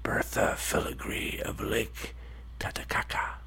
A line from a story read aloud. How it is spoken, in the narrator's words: whispered